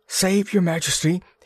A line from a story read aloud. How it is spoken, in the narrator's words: he greeted breathlessly